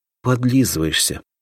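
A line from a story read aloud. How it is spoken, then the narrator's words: Sighed. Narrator (Russian): вздохнула Соня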